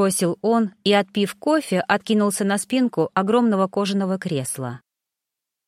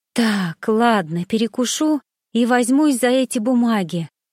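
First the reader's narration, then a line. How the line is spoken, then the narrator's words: Tired whisper. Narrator (Russian): устало прошептала Геля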